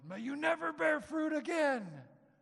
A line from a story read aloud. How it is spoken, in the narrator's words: He yelled